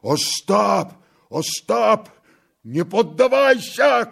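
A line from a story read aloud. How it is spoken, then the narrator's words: Shouting. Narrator (Russian): кричал Тарас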